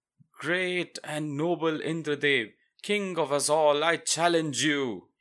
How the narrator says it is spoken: cried

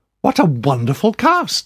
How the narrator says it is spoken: I exclaimed

